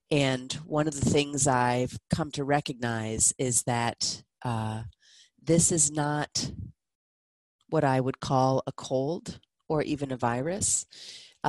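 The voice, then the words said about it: Lower-pitched voice, recovering from illness. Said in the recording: “my voice is a little lower than usual. I am getting over a 24-hour something or other.”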